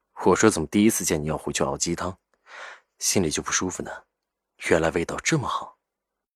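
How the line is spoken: Low, laughing. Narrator (Chinese): 赵雨静……低声笑道

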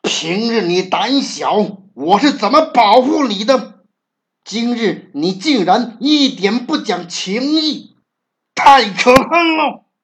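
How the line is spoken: Furious shout. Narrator (Chinese): 这下猫气坏了，大喊道

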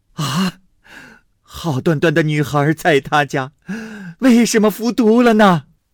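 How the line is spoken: Crying and shouting. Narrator (Chinese): 哭着喊着

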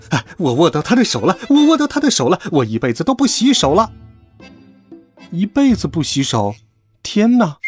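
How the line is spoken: Wild loud shouting. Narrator (Chinese): 大声狂叫

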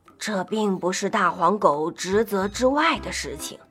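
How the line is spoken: Grumbling mutter. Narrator (Chinese): 和大黄狗不太对付的狐狸助理嘀咕道

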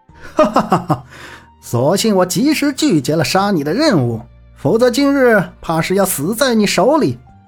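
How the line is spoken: Sudden loud laughter. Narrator (Chinese): 任天行突然仰天大笑道

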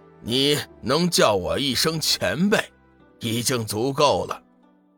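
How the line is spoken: Faint smile. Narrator (Chinese): 黄极真君淡淡的笑了笑

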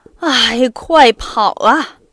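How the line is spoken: Loud call. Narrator (Chinese): 他向车夫大声说

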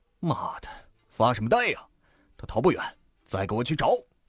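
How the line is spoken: Roaring. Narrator (Chinese): 对身后的一群人吼道

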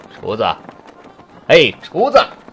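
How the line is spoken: Loud shouting. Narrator (Chinese): 朗拉森回答，大声嚷叫道

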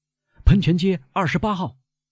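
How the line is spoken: Nervous shout. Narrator (Chinese): 汗水从贝尔图乔的脸上冒出来，他服从了，对车夫喊道

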